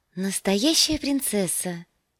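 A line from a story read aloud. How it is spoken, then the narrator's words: Breathless exhale. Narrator (Russian): выдохнула девушка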